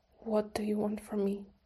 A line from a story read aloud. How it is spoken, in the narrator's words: His voice was shaky